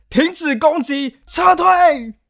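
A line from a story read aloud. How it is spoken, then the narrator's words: Terrified shouting. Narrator (Chinese): 他顿时吓得魂不附体，接下来开始大喊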